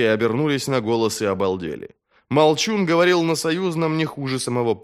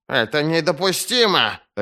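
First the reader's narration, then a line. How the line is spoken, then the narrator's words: Barking. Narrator (Russian): рявкнул тупица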